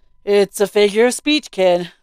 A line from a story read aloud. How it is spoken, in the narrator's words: he said with half-amused, half-annoyed chuckle